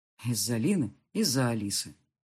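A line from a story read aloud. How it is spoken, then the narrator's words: Sighing. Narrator (Russian): вздохнул я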